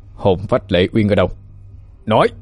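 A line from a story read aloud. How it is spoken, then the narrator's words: Harsh stressed voice. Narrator (Vietnamese): Khánh Minh gằn giọng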